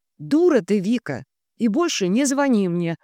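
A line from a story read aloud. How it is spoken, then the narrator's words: Clipped, emphatic. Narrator (Russian): отчеканила я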